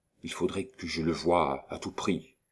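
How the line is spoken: Quiet, low voice. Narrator (French): lui dit tout bas

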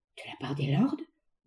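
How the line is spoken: Murmured. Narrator (French): murmura-t-il

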